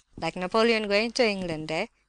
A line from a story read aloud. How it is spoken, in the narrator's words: cried he, laughing